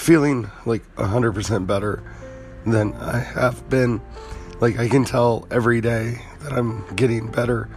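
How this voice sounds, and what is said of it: Weak, congested, partly lost voice. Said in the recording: “with a lack of a voice ... as you can hear, my voice is still not back ... still have a little bit of congestion, but I'm sure you can hear the results of that”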